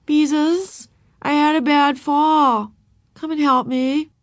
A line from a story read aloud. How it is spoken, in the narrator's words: She said in her most pitiful voice